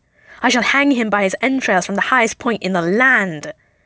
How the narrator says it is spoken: Loki screeches

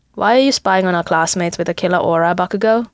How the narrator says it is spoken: Kirishima says flatly

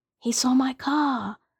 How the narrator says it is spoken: Svetlana whispered to Shane

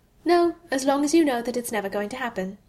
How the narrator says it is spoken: she answered cheerfully

